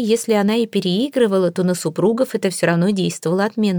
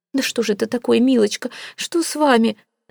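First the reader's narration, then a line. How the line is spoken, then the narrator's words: Flustered babbling. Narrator (Russian): залепетала миссис Флип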